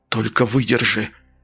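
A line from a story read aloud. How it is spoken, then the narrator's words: Pleading. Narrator (Russian): взмолился Фигаро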